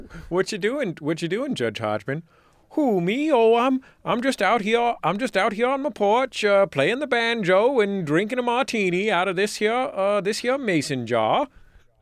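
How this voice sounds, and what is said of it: Put-on mixed Southern and Maine accent. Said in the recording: “the most incredible fusion of a Southern and Maine accent”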